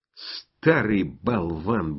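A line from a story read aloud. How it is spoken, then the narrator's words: Muttering. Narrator (Russian): бормочем мы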